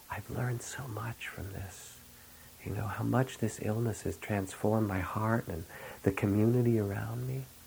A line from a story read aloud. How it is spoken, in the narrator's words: he said kind of secretly, like he whispered it to me